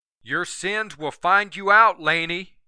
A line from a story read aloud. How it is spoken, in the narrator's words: Yoder yelled